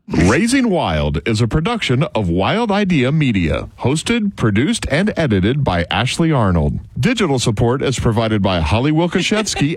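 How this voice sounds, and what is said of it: Polished radio announcer voice. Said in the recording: “turning on his radio voice”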